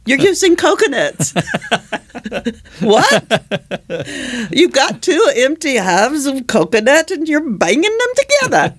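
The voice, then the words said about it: Poor put-on British accent. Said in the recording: “My horrible British accent.”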